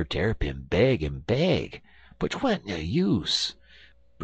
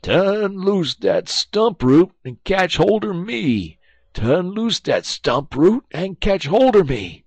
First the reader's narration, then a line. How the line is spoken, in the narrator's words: Brer Terrapin begin fur to holler